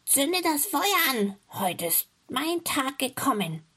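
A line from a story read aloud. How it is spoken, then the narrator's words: Calling out. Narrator (German): rief sie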